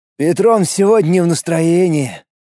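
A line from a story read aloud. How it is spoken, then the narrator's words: Sigh. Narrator (Russian): вздохнул один из прихлебателей Салтыкова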